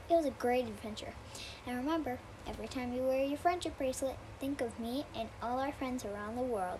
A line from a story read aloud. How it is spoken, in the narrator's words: said Dora